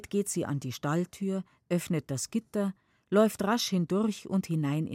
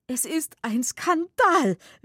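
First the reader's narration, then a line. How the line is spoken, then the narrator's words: Whimpering woman. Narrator (German): wimmert die Rätin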